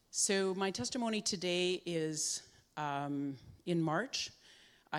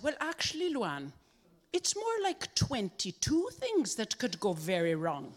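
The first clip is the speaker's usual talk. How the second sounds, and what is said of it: Put-on Dublin Irish accent. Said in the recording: “a lovely gentleman from Dublin. So I have to use a lovely accent”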